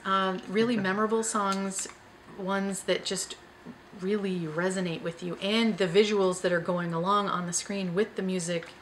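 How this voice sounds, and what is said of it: Hoarse, fading voice. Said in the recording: “Sorry, losing my voice.”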